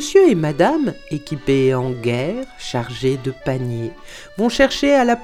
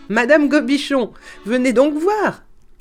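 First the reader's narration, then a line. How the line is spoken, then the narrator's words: Shouted. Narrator (French): crie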